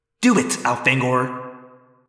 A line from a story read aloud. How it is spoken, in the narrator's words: Alaron hissed